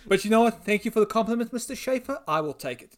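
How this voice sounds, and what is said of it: South African accent. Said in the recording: “I'm from South Africa... that's such a cool accent... Really not a cool accent.”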